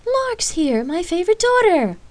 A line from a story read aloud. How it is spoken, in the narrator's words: her mother jokingly laughed